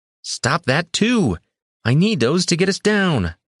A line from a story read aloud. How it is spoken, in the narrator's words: Soria yelled